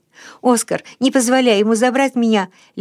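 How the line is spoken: Babbling broken voice. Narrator (Russian): лепетал Расмус прерывающимся голосом

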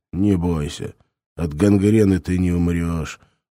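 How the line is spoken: Gloomy. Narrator (Russian): мрачно сказал ящик

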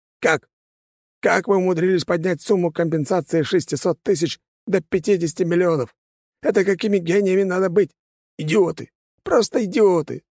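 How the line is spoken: Howling. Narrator (Russian): взвыл директор

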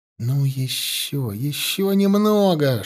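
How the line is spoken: Whispered to himself. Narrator (Russian): шептал про себя Алексей

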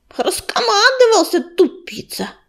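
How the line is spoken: Through gritted teeth. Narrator (Russian): процедила Белочка

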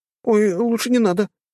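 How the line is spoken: Squeaking. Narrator (Russian): запищала одна из них

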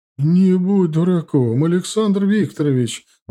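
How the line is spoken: Old woman exclaiming. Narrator (Russian): воскликнула бабуля

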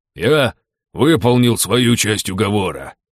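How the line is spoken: Joyful growl. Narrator (Russian): радостно прорычал Бернир

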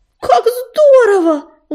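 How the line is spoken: Exclaiming. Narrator (Russian): воскликнула она

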